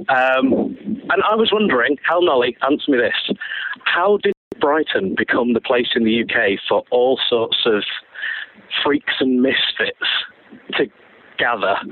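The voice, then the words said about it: Manchester English accent. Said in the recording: “You might be able to tell from my accent, I'm not actually from around here originally. I'm from Manchester.”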